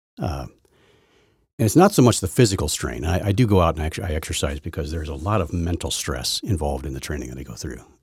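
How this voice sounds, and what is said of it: Tired, worn-out voice. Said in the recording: “you might be able to tell it in my voice. I can tell it in my voice. I have a tired voice. I am wiped out.”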